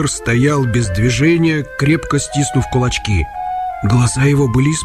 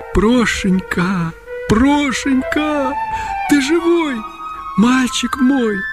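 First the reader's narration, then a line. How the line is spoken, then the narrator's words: Tearful whisper. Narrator (Russian): Утерев концами платка слезы, Агафья прошептала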